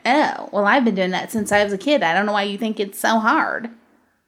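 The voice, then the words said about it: Mocking impression of a commenter. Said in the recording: “It's my impression when I read the comment.”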